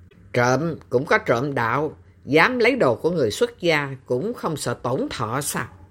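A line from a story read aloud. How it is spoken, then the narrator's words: Cold, mocking. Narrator (Vietnamese): Dương Chính Đạo tỏ vẻ trào phúng, lạnh lùng nói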